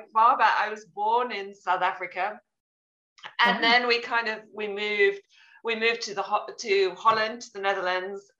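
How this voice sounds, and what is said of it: Mixed international accent. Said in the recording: “my accent's a little bit of a mixture of everything”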